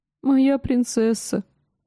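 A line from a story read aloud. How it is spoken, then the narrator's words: Sobbing. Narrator (Russian): прорыдал он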